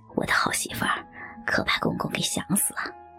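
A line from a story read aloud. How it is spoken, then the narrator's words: Murmuring. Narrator (Chinese): 徐海口中喃喃说道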